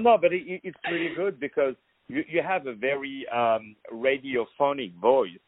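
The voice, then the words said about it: French accent. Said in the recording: “I love the French accent. It's one of my favorites. ... The French accent, my dear.”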